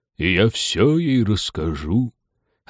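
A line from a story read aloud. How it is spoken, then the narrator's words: Deep booming voice. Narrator (Russian): ответила Чипупаха глубоким гулким голосом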